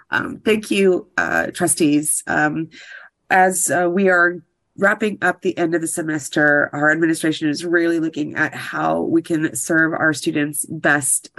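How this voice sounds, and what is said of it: Voice affected by a cold. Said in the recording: “I have a cold today”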